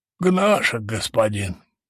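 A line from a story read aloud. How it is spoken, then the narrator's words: Hoarse fugitive reply. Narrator (Russian): хрипло отозвался беглец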